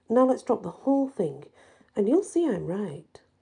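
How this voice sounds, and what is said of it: Stern voice. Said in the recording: “said Patrick in a stern voice.”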